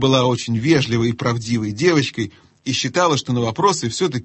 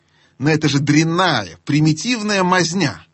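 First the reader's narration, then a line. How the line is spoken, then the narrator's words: Scoffing. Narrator (Russian): хмыкнул Юстас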